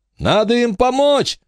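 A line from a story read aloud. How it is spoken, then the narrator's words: Shout. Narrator (Russian): закричал Майкл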